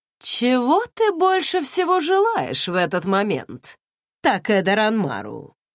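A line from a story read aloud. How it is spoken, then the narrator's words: Carefree. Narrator (Russian): спросил Руку беззаботным голосом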